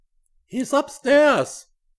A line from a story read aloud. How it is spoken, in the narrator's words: Weiss shouted